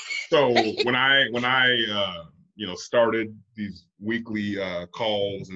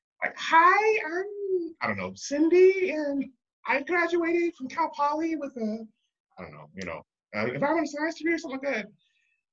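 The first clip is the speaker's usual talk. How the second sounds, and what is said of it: Imitated young woman's voice. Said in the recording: “my best impression of a 23-year-old girl's voice”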